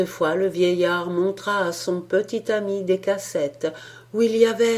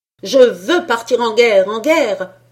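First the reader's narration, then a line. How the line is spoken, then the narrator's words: Tin soldier shouting loudly. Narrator (French): s'écria le soldat de plomb de toutes ses forces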